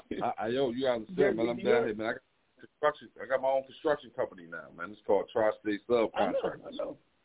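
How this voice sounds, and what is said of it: New York accent. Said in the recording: “You still get that New York accent, you know, though.”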